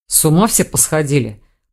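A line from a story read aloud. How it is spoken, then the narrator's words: Growl. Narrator (Russian): прорычал Рейн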